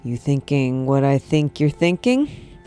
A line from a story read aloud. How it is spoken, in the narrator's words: the pilot asked